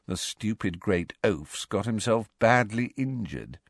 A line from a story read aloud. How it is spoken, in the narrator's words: said Malfoy in an undertone, so that only Harry could hear him